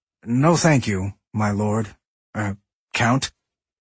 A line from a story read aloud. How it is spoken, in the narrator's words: he stammered